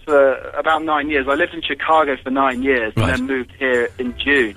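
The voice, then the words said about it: Very posh English accent. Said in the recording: “he has got the poshest English accent I have ever heard in my life”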